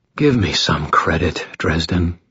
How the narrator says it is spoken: he sighed

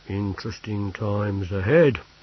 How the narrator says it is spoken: he said gloomily

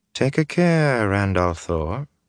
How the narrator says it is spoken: she said in that icy, musical voice

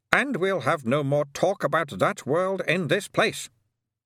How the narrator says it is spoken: said Ptarmigan sharply

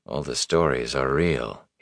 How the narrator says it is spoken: he said softly

